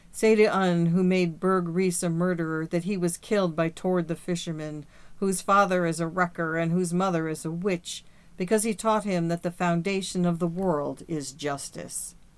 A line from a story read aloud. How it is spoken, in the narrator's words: Tord said with a voice which shook with sobs